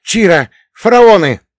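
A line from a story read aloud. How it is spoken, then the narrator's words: Young man shouting. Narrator (Russian): крикнул один из парней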